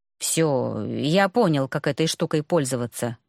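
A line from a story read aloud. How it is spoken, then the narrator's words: Grumbling. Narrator (Russian): пробурчал он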